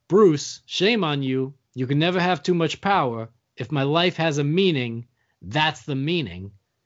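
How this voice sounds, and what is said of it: Good Christopher Walken impression. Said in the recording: “That was a good Christopher Walken. ... it's a very good impression.”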